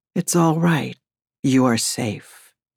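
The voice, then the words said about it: Husky voice. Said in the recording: “in my huskiest voice.”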